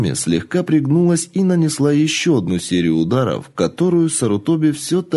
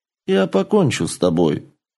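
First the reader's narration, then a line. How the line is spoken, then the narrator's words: Calm warrior voice. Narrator (Russian): спокойно ответил воин-дракон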